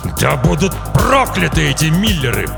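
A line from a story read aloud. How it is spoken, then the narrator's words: Growling father. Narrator (Russian): прорычал отец девочки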